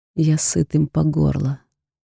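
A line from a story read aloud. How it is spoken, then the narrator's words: Through clenched teeth. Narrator (Russian): цедит сквозь зубы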